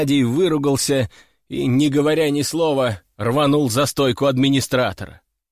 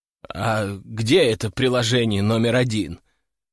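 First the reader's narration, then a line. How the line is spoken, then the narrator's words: Tired question. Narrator (Russian): устало спросил я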